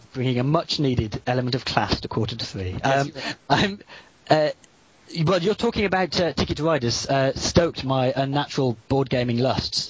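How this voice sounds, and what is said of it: Distinct non-American accent. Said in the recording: “I'm enjoying your accent and you saying the word Battleheart. I wish I sounded like that.”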